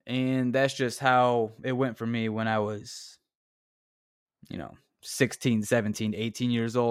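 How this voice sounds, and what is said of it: Usual voice. Nothing is said of it.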